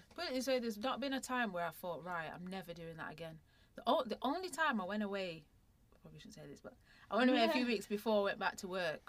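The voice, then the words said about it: Northern English Mancunian accent. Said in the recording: “I can hear your northern accent ... I can completely hear it. Yes, you are Mancunian.”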